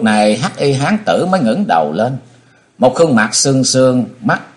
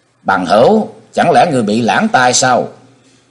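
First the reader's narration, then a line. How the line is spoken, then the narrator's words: Cold voice. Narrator (Vietnamese): một giọng nói lạnh lùng nói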